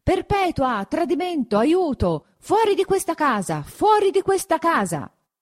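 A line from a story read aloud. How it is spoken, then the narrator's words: Still shouting. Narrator (Italian): gridando tuttavia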